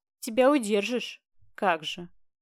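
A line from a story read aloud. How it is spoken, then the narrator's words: Snorted. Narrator (Russian): Фыркнул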